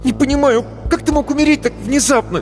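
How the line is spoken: Sudden angry young voice. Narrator (Russian): неожиданно зло и сердито заговорил паренек

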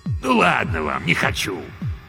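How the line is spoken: Snorted. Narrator (Russian): Антихрист фыркнул

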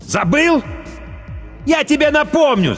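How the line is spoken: Shouting. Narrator (Russian): закричал Ким

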